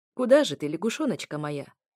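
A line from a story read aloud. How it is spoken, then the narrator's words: Chuckling, ethereal being. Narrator (Russian): хохотнул эфир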